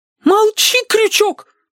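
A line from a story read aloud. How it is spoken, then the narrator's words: Young woman's shrill squeal. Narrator (Russian): взвизгнула девица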